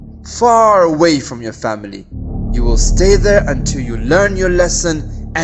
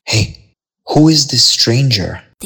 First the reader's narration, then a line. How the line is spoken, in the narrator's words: They whispered